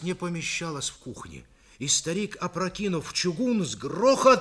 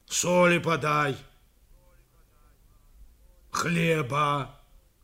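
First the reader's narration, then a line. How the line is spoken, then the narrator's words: Menacing occasional growl. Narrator (Russian): Изредка и грозно рычал Пантелей Прокофьевич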